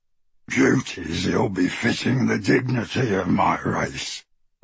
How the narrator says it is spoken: replied the goblin, his voice rougher and less human as he said it

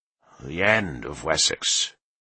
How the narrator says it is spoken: Leofric said sadly

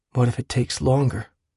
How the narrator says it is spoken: he asked quietly

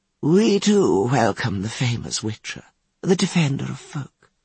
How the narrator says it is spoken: said Biruta Ikarti

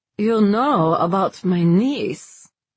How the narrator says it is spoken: the man slurred

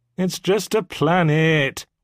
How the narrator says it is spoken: whined Ronald

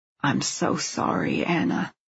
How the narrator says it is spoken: Alex says softly

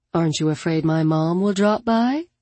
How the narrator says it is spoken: Caitlin asked dryly

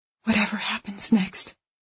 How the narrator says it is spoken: she says quietly

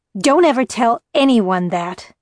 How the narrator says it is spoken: she yelled when she'd recovered

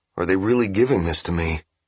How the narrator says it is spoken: He asked softly

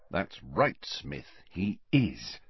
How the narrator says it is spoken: muttered Harry, grinning to himself

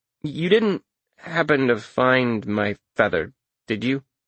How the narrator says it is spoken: I asked hesitantly

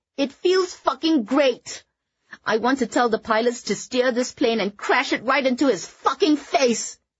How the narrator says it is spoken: Kitty screamed again, before breaking into loud, heaving sobs

